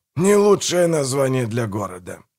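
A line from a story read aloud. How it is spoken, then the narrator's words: Grumbled. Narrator (Russian): проворчал Манфред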